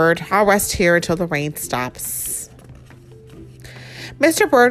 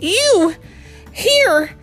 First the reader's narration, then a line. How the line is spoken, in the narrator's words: gasped Mr